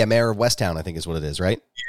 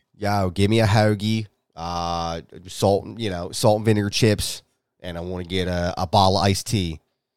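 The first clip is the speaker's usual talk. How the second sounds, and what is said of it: Put-on Delaware County Philly accent. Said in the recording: “That's a pretty good Delco accent.”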